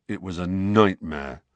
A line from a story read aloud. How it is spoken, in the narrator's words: said Ron in a surly voice